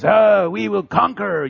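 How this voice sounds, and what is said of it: Put-on French-sounding accent. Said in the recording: “that's how Romans talk. That's their accent. They're French.”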